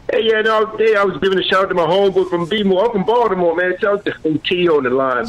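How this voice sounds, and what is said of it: Baltimore accent. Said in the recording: “You can tell you from Baltimore because you didn't call it Baltimore. You said, I'm from Baltimore. That's how you say it when you're from Baltimore. It's like it's a D in there. ... they got that little accent thing”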